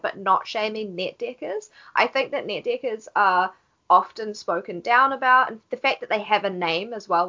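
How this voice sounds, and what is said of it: Speaker's own accent. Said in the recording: “Please don't laugh at my accent”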